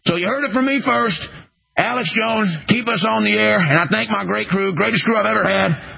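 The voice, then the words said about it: Alex Jones impression, Louisiana accent. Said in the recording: “your Alex Jones impression has a bit of a Louisiana accent. ... A bit of a down deep south vibe”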